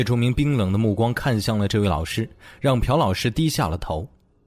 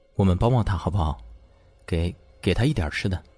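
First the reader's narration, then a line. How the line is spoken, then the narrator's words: Quiet, resolute. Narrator (Chinese): 咬咬牙，小声和叶钟明说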